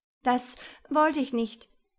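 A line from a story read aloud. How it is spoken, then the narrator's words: Stammering to himself. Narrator (German): stammelte Eisenhart vor sich hin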